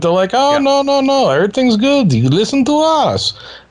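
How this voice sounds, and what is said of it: Weak put-on German accent. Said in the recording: “I didn't do a good German accent there”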